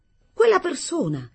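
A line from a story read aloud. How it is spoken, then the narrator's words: Abrupt exclamation. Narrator (Italian): esclamai con bruschezza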